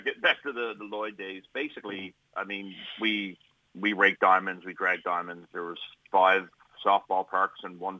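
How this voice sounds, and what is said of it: Slight East Coast Canadian accent. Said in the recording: “being from the East Coast there, you got a little bit of an accent”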